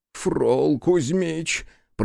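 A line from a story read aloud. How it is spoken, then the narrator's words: Groan. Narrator (Russian): простонал Иона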